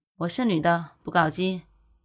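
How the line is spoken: Flat indifferent reply. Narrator (Chinese): 古欣欣只是淡淡的回了一句

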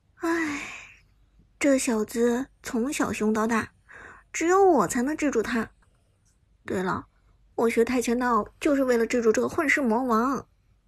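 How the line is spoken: Exasperated sigh. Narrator (Chinese): 伍兹不省心的叹了口气

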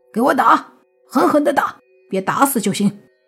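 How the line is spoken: Angry commanding shout. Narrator (Chinese): 慕云逸脸色一黑，直接对周围的人喊道

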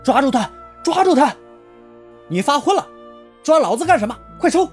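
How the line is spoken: Shouting. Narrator (Chinese): 他大喊道

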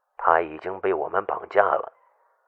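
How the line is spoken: Hoarse, cold voice. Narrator (Chinese): 一个沙哑的声音响起来，冷冷的说道

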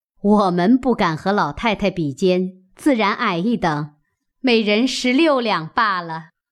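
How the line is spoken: Laughing. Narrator (Chinese): 邢夫人、王夫人笑道

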